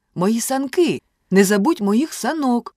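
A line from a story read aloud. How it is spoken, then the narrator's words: Shout. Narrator (Ukrainian): крикнув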